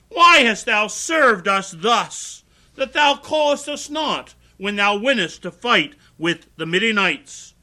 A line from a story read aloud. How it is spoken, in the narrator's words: they did chide with him sharply